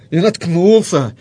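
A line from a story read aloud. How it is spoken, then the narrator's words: Angry. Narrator (Russian): сердито произнес муж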